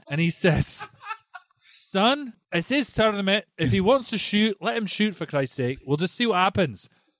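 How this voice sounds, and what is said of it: Impression of another person's voice. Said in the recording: “your Stevie Coppola impression... Horrible, isn't it?... not bad... I've heard better.”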